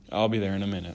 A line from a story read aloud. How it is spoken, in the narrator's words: said Franklin